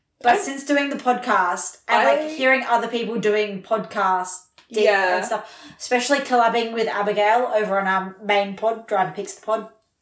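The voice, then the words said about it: Australian accent. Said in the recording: “our Australian side ... people can hear our voices ... my accent”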